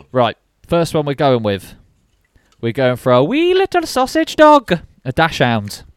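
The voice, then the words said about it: Dodgy put-on Irish accent. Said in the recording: “I don't know what that accent was ... Scottish? ... Irish? ... dodgy Irish accents”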